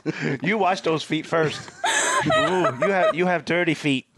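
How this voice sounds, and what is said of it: Put-on accent. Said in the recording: “Why are we speaking with an accent? ... Why were we speaking with an accent? ... You started it and I followed it.”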